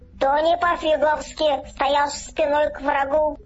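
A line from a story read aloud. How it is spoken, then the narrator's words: Shouted. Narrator (Russian): крикнул сякограб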